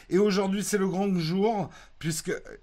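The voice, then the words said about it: Put-on southern French accent. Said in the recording (French): “pourquoi je prends un accent du Sud, je ne sais pas”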